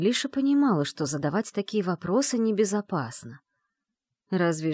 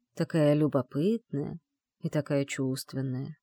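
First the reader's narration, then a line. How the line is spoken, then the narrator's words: Murmuring. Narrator (Russian): пробормотал он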